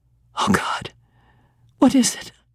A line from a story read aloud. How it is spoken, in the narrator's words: I gasped